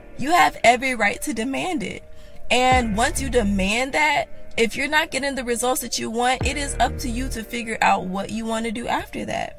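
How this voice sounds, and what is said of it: Raspy voice. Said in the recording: “My voice is so raspy.”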